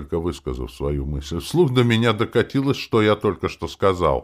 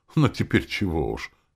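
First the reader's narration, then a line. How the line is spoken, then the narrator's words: Sigh. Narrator (Russian): она вздохнула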